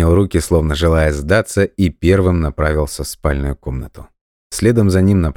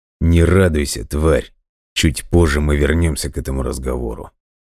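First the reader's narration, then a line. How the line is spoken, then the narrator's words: Hiss through teeth. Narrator (Russian): Прошипел сквозь зубы Виктор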